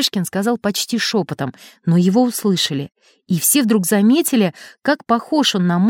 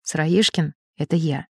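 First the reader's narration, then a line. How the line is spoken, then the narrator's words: Barely audible. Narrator (Russian): чуть слышно сказал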